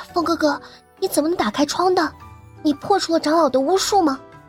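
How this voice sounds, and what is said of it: Puzzled, quiet hushed voice. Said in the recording (Chinese): “疑惑又小声”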